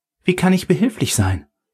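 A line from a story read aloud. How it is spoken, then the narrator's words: Excited question. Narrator (German): fragte sie aufgeregt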